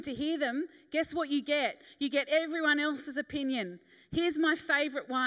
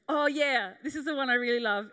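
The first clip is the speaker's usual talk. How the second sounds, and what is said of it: Sarcastic delivery. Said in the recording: “I'm being sarcastic”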